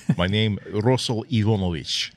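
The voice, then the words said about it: Very heavy put-on Russian accent. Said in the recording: “speak with a very, very heavy Russian accent.”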